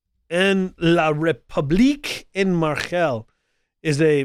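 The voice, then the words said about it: Mock French accent, mixed. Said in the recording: “a little bit of Hebrew and German mixed in there with my French accent”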